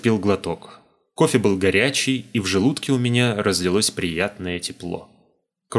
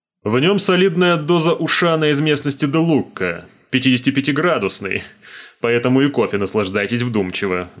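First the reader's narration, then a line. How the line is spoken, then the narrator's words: Laughing. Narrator (Russian): Гарфеншток рассмеялся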